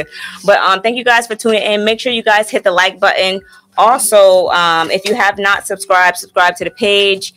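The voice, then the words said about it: Hoarse, deepened, strained voice. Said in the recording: “I've been losing my voice all week since Friday ... sound like a whole man over here”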